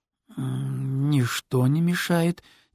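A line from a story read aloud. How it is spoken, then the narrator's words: Hesitant drawl. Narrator (Russian): немного неуверенно протянул Тед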